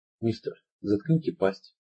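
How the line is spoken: Soft. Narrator (Russian): мягко ответил Туки

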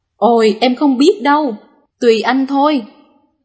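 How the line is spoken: Laughing loudly. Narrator (Vietnamese): Người vợ cười to và nói

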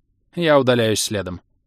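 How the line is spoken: Dry, curt doctor. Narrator (Russian): сухо произнесла врачиха

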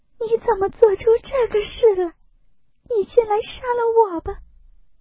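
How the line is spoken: Terrified, crying. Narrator (Chinese): 黛玉吓得魂飞魄散 哭道

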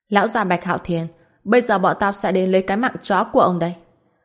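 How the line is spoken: Laughing loudly. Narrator (Vietnamese): Ngao Trấn cười lớn và nói

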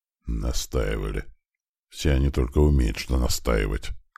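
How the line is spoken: Weary. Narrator (Russian): как-то устало произнес хозяин кабинета

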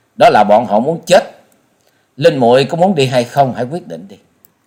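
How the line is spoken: Loud laughing. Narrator (Vietnamese): Trần Lâm cười to nói

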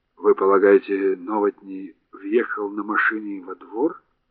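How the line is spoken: Mumbling. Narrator (Russian): пробормотал Хорншу

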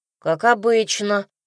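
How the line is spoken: Grumble. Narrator (Russian): буркнул Ильян

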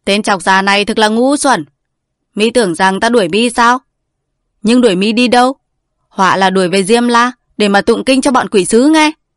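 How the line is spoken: Laughing loudly, asking. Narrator (Vietnamese): Bà Trương ha ha cười lớn rồi hỏi lại rằng

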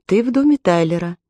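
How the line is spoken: Calm and slow. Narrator (Russian): Аманда говорила спокойно и медленно

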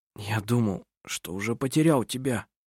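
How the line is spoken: Hoarse. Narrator (Russian): сказал он хрипло

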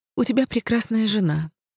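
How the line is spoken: Soft. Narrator (Russian): произнесла я мягко

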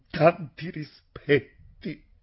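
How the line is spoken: Answered with a sob. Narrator (Italian): Quegli rispose con un singhiozzo nella gola

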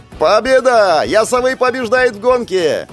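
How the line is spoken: Shout from the crowd. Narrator (Russian): закричал кто-то из толпы

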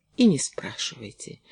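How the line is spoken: Barely audible. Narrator (Russian): едва слышно сказала Кэти

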